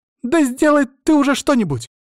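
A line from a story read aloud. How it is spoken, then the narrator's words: Shouting. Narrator (Russian): закричала она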